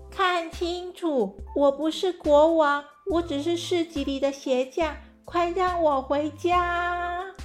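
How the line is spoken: Loud. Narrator (Chinese): 他大声地说

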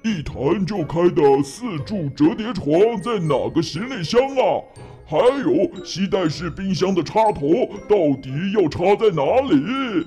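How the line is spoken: Muttering to himself. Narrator (Chinese): 他喃喃自语

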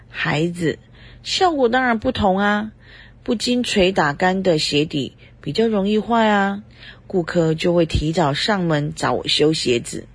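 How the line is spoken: Mysterious smiling. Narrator (Chinese): 对方很神秘的笑着说

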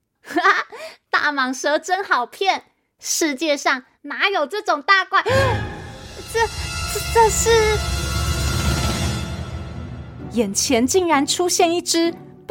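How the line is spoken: Laughing. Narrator (Chinese): 老鼠阿斗 笑着说

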